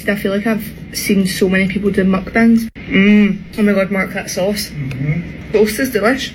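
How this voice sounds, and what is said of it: Scottish accent. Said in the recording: “the Scottish accent, by the way, kind of sounds like a Dakota one, like a North Dakota one, a little bit.”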